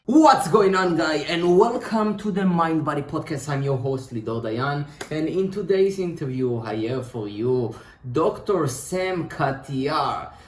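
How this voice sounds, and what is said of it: Jewish accent. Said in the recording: “with the sexy Jewish accent”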